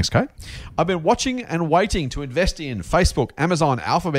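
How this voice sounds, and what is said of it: Usual voice. Nothing is said of it.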